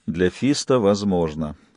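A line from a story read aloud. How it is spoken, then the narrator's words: Tired. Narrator (Russian): устало выговорил Джек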